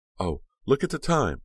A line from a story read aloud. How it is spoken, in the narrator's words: Aunt Margaret exclaimed